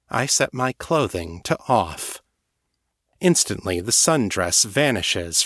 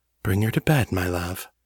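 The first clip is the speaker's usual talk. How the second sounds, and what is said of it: Seductive, sultry voice. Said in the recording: “in my most seductive voice.”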